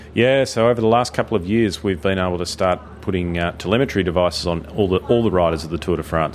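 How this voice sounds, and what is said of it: Australian accent. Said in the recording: “a nice Aussie accent”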